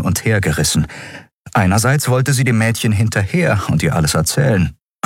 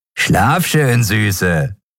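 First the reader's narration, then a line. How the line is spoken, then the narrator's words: Dirty laughing farewell. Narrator (German): sagte der eine zum Abschied und lachte dreckig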